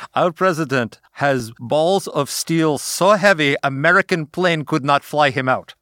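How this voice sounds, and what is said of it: Put-on Ukrainian accent. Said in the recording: “I'm part Polish, so I can do the accent.”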